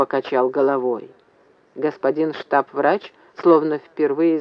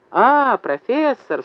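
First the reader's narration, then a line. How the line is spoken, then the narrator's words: Exaggeratedly joyful exclamation. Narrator (Russian): вскричал преувеличенно радостно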